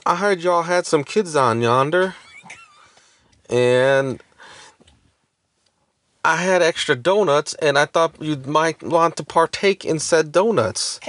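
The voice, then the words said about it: Put-on Southern accent. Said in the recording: “I'm just doing an impression of her accent. ... Can you just tell the story without the accent? ... The accent's part of the story. ... it adds to the southern charm.”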